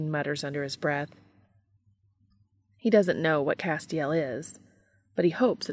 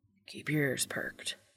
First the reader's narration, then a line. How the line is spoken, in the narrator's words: Dean whispers